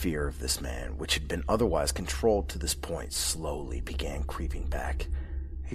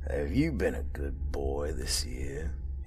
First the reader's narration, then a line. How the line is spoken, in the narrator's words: He gave a little chuckle